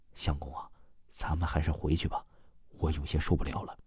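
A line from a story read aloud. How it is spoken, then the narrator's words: Quiet, uneasy wife. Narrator (Chinese): 梁松的夫人呢，也感觉有些不舒服，小声说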